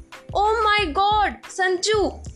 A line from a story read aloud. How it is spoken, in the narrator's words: he exclaimed